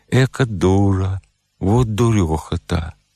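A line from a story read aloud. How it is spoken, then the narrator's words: Smirking grumble. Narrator (Russian): Четыхер усмехнулся и проворчал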